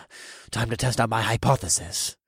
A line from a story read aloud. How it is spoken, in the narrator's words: I muttered to myself with a sly smirk